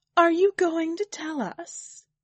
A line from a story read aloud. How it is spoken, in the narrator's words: demanded, hands clenching nervously